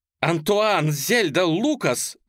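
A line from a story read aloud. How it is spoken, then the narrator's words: Shouting. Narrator (Russian): закричала фон Хойзере в несуществующий микрофон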